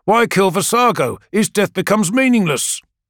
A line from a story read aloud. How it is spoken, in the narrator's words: snaps Carthaeus